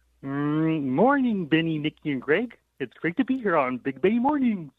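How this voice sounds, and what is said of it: Kermit the Frog character voice. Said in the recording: “you can do a Kermit and a Mickey Mouse impersonation ... Let's do Kermit. ... that's good. ... So good.”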